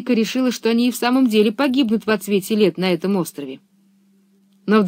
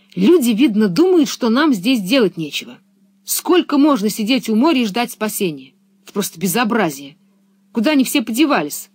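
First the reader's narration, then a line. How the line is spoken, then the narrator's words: Girl's angry speech. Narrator (Russian): Пеппи сердито сказала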